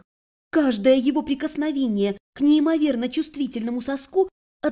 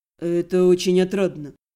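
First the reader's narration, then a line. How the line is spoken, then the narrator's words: Purring. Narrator (Russian): промурлыкал Белый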